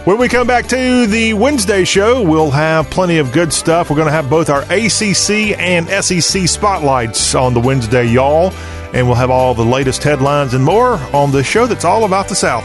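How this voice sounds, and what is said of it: Southern US accent. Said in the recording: “Talk with a Southern accent.”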